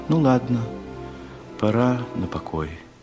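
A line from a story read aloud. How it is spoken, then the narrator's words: Seemingly casual. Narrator (Russian): сказала как будто небрежно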